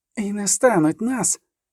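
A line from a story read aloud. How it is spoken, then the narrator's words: Hissed. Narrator (Ukrainian): засичала Іскра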